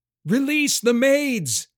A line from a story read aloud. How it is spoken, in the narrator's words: yelled into his ear over the wind